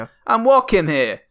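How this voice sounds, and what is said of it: Put-on New York accent. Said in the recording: “See, it's pretty good. ... That's pretty New Yorkish. ... excellent New York accents”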